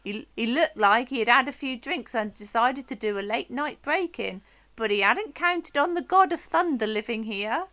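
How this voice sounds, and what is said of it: Put-on Swedish accent. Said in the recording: “Was that like a Swedish accent? ... That was my Swedish accent, yeah.”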